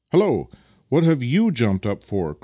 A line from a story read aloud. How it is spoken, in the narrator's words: cried Vasily, suddenly, clearly enjoying the fact that an unauthorized passenger was trying to perch himself upon the runners behind